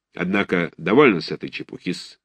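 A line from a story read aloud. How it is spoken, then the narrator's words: Dry. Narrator (Russian): сказал он сухо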